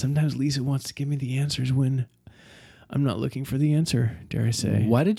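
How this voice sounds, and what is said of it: Whispering. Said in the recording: “I whispered. ... How come you just whispered this?”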